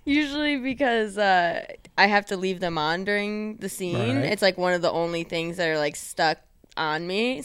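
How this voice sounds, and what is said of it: Michigan accent, O's sound like A's. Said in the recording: “the Michigan accent ... All my O's sound like A's.”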